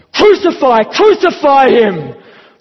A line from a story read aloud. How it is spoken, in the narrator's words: they shouted